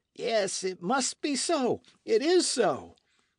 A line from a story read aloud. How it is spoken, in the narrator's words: exclaimed the young midshipman, worked up to a pitch of enthusiasm